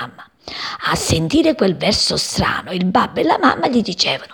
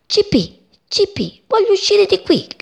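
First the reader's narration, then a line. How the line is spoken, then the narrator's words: Shouting. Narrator (Italian): gridava lui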